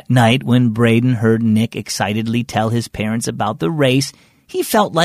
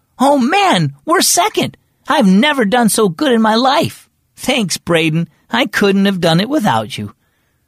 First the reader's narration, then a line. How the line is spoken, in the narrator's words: he heard Nick yell